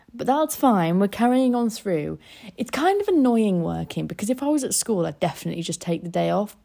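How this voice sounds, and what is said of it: Weird-sounding, unwell voice. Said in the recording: “I'm not well. I don't know if you can hear it, and I'm sorry if my voice sounds weird. I think I'm getting tonsillitis.”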